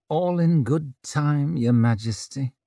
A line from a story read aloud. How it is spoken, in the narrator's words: Judge murmur